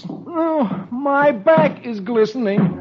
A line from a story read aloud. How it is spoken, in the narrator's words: Dagwood, who's beginning to get tired, groans